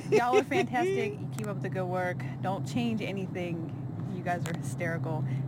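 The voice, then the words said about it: Strong regional accent. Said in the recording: “I love that accent. ... Yeah, it's a real accent.”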